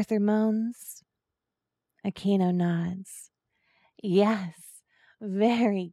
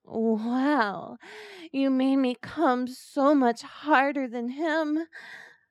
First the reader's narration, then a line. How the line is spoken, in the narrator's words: Aquino moans